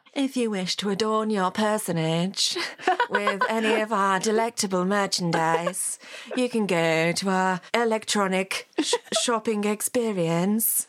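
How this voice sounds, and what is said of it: Moira Rose character impression. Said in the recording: “Was that a good to a second impression? ... Was it Moira enough for you?”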